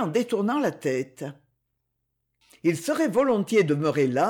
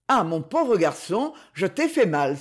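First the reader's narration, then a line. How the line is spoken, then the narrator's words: Exclaiming. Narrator (French): s'écria-t-il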